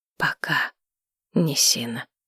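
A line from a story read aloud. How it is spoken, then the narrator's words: Quiet. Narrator (Russian): тихо сказала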